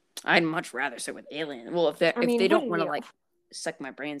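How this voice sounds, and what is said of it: Usual voice. Nothing is said of it.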